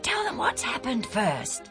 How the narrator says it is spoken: Andronicus whispered to Junius

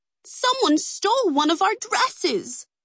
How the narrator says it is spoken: the women cried in unison

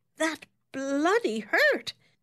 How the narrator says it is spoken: he exclaimed indignantly

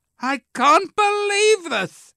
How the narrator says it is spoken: Claire shouted

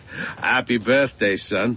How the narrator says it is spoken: Pop said with a laugh

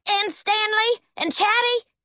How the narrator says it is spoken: Howard practically hollered

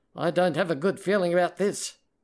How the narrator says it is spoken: the assistant said

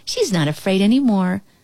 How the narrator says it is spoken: Ellie giggled

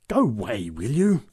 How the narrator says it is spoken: growled the big woman

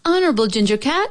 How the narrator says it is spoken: she called out

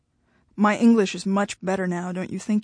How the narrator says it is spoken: he asked

